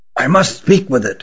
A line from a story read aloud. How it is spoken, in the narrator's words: whispered Rugum